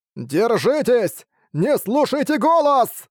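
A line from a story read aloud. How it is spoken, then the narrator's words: Loud shouting, old man. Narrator (Russian): громко кричал старый монах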